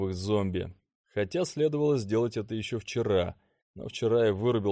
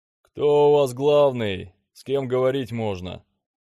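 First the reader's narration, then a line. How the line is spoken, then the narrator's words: Man yelling, commanding voice. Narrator (Russian): заорал мужик с очень хорошо поставленным командным голосом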